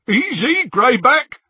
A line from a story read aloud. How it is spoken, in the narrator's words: said Scabia, over the jeering of the others